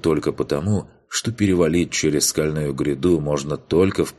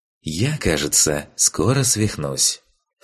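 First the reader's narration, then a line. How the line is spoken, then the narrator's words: Big cat speaking. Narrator (Russian): в приватном чате произнес здоровенный черный кот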